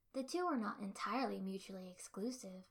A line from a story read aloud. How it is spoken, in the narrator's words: I said calmly